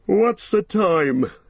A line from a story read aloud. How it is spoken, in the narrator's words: he said sleepily